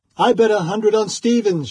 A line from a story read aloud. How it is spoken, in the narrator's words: shouted one